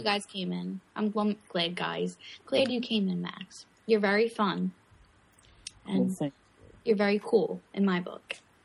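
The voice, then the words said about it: Noticeable foreign accent. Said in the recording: “I like your accent. I dig the accent... everyone's like, your accent.”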